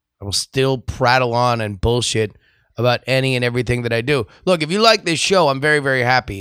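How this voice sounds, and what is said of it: Hoarse, nearly lost voice. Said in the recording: “I ain't got no voice ... losing my voice ... my voice has made a very stern warning”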